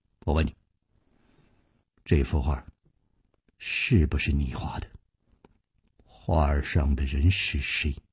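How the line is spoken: Deep stern voice. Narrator (Chinese): 他…沉声说

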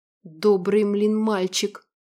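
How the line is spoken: Said through gritted teeth. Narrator (Russian): процедил волк

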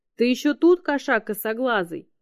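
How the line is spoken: Yelled. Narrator (Russian): заорала чума на него

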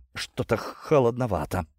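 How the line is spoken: Chilled, shivering voice. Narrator (Russian): продрогшим голосом заметил он

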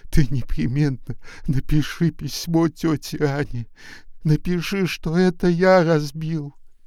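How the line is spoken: Sobbing boy. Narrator (Russian): Мальчик, всхлипывая, сказал

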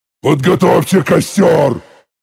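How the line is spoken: Roar. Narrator (Russian): Взревел я

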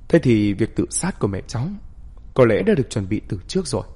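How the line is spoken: Calm, gentle. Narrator (Vietnamese): Bạch Bích bình tĩnh nghe hết, không biểu hiện gì, chỉ nhẹ nhàng nói

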